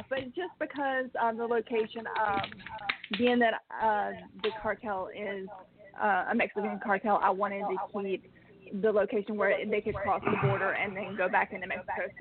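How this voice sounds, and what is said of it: Southern American accent. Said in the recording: “as if you can't tell from my accent, I am a Southern girl.”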